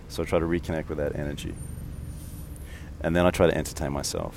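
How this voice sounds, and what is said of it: Monotone mumbling Australian accent. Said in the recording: “listen to my voice. It's monotone. I mumble a bit. I have an Australian accent.”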